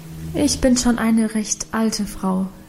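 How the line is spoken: Plain. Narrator (German): sagte Guste

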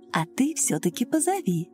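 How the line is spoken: Soft motherly repetition. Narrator (Russian): Женщина мягко так по-матерински повторила

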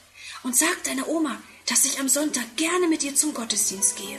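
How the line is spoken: Whispered. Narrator (German): flüstert

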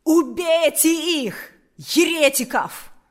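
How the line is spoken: Shouted. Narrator (Russian): крикнул Карп

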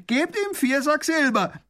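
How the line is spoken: Prisoner calling out. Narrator (German): ruft der Gefangene

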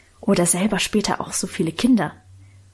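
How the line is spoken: Whisper. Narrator (German): flüsterte Lenchen

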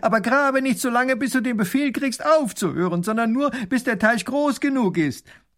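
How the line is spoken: Calling after someone. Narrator (German): Der Großherzog ruft ihm noch nach

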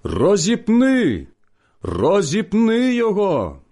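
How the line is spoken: Crowd shouting. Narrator (Ukrainian): Та вони закричали

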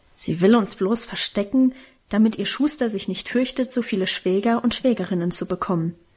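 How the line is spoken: Grumbling. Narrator (German): brummte Karl

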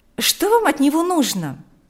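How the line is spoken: Irritated question. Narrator (Russian): раздраженно спросила Марьяна

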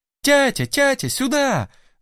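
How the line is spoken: Loud yell. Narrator (Russian): завопила Настасья

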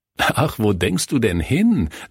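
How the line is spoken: Laughing. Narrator (German): lachte Kurt

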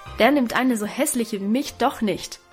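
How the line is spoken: Call. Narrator (German): rief Guste dabei, und dann weinte sie ebenso laut, aber noch verzweifelter als Alwine

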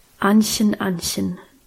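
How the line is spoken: Serious voice. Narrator (German): sagte er mit ernster Stimme

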